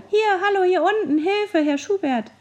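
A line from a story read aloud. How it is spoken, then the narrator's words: Squeaky voices. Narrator (German): Durch unsere Piepsstimmen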